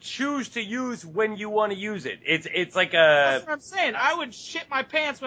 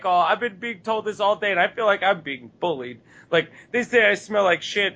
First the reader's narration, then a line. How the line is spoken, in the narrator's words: my best fucking pouty expression I possibly can without laughing, and be like